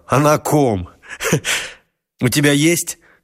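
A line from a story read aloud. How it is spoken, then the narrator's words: Laughing. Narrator (Russian): Лёшка засмеялся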